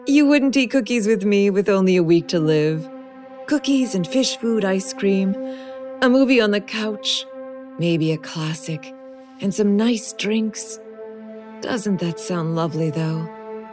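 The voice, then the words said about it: Bubbly, faux-wistful voice. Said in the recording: “in a bubblier voice than usual, a bit faux wistfully, a voice I used when I was cuter”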